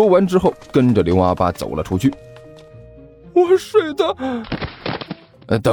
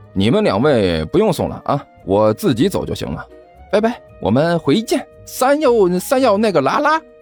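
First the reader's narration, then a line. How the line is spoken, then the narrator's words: Cheerful, laughing. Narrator (Chinese): 甘球笑呵呵地 说道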